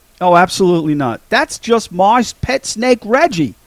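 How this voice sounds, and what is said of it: Imitated character, Australian-to-American accent. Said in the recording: “Jock's accent changes in a matter of seconds from like Australian to American”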